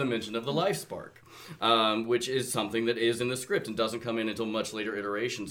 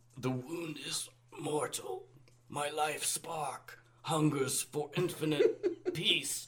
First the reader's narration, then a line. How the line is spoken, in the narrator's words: Megatron weakly says